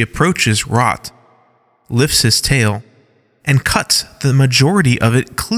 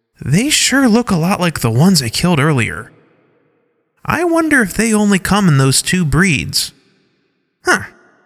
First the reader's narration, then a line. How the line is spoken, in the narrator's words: She says in a curious voice